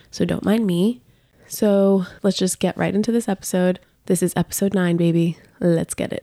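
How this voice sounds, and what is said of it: Congested, sick-sounding voice. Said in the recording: “sorry about my voice. I am sick, so I sound a little congested”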